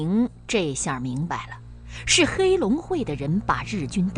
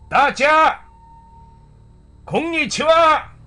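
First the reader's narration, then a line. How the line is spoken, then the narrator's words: Shouting. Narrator (Chinese): 日军那个上尉中队长开始喊话了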